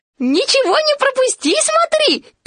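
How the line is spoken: Squeak. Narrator (Russian): пискнул Пятачок

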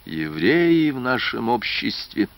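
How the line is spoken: Prince sighing. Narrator (Russian): вздохнул князь

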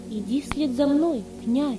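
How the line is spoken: Calm. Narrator (Russian): спокойно сказал он

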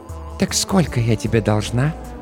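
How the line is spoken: Whisper into ear. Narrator (Russian): прошептала Джоанна мне прямо в ухо

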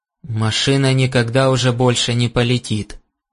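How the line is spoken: Grim. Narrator (Russian): мрачно сообщил он

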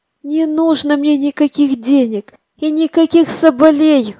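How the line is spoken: Exclaiming. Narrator (Russian): воскликнула она

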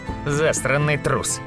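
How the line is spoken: Snorting. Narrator (Russian): фыркнул Тавик

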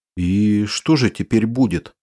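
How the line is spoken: Slightly frightened question. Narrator (Russian): слегка испуганно спросила Вера Северьяновна

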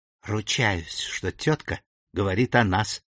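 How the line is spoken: Whisper. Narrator (Russian): шепнула мисс Эмили Уордль своей сестре

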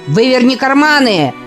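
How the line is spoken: Shouted. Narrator (Russian): крикнул Зингер

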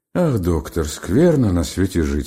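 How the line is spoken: Weary. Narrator (Russian): сказал устало Бобров

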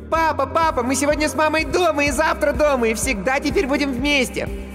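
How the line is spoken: Shouting. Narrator (Russian): Никита уже кричал

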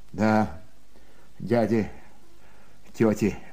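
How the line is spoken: Mumbling. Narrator (Russian): бормотал Сашка

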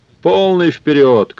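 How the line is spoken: Shouting. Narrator (Russian): крикнул он

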